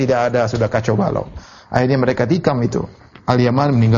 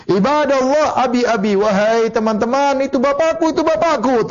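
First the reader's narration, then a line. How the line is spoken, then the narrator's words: Desperate shout. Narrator (Indonesian): dia berteriak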